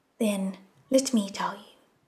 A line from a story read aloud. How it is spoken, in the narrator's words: In a gentle voice, White No Face offered